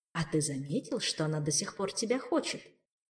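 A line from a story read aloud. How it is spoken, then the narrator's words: Insinuating inner whisper. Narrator (Russian): вкрадчиво шепнул внутренний голос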